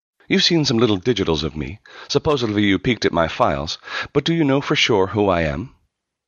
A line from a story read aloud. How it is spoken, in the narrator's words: She nearly laughed